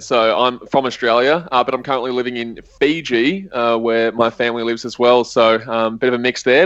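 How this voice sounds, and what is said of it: Australian accent. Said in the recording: “as you probably can tell, I've got an Australian accent”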